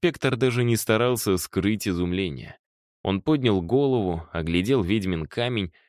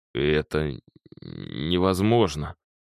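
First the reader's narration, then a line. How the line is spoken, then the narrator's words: Stammering. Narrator (Russian): заикаясь, выговорил он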